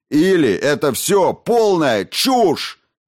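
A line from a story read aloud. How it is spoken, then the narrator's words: Roaring. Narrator (Russian): взревел Хокинс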